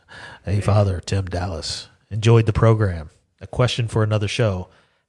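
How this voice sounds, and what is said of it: Announcer-style radio voice. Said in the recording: “I'm going to do this in my radio voice.”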